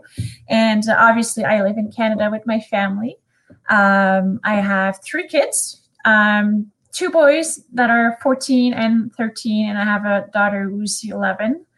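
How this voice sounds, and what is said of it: Slight French-Canadian accent. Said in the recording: “I am Canadian and my first language is French. So you will probably hear my little accent”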